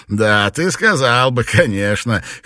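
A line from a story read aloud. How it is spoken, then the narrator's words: Chuckle. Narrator (Russian): хохотнул Гэвелон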